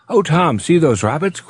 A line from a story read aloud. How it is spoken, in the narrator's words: cried Polly excitedly